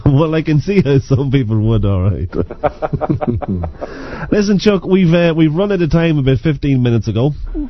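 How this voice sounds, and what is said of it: Speaks with a regional accent. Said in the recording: “I get a big kick out of your accent”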